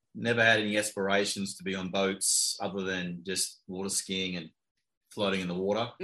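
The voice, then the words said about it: Australian accent. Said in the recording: “your accent says that ... Palm Beach Gardens by way of Australia, possibly?”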